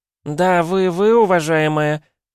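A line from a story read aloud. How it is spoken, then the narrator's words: Shrill ranting young woman. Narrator (Russian): распиналась девица визгливым тоном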